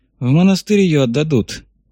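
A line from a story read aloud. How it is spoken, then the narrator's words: Gloomy, sniffing. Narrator (Russian): мрачно заметил Кибалка, засопев носом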